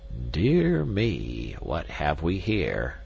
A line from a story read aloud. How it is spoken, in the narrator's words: exclaimed the king of the jungle in a querulous tone